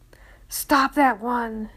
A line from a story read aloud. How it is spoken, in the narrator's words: yelled a guard